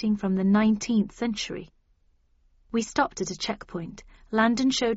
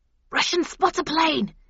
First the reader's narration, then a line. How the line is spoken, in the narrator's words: hissed the doomed soldier